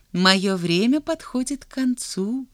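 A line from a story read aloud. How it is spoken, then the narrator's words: Tender. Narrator (Russian): ласково сказала она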